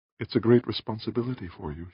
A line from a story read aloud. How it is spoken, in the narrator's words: she said softly